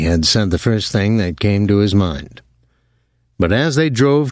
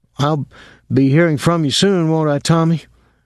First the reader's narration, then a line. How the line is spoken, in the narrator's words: Dwyer said anxiously